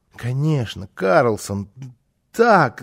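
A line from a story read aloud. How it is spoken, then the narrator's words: Stammering excited child. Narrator (Russian): залепетал малыш, заикаясь от волнения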